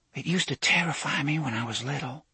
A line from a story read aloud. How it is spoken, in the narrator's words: Susan was whispering now, mindful of the house behind the wall